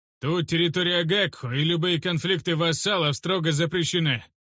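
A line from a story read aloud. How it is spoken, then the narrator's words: Loud bark. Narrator (Russian): громко рявкнул Урастухш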